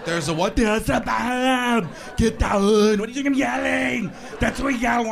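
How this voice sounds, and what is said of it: Yelling impression of another person's voice. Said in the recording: “You ever hear Schwarzenegger yell, though? ... He starts screaming, and his face gets all contorted. You can't understand him. ... such a big guy has such a funny voice”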